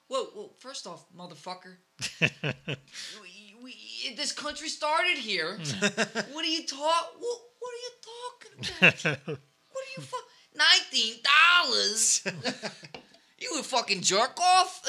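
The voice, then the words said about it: Heavy East Coast American accent. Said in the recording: “somebody with a really heavy East Coast accent”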